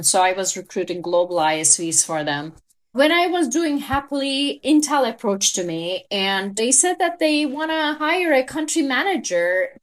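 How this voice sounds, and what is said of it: Turkish accent in English. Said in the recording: “as you can tell from my accent, I am a Turkish native”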